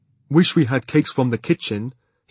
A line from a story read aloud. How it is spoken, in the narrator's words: he said wistfully